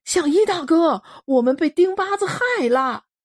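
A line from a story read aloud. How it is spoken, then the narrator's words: Shouting. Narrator (Chinese): 囚徒们喊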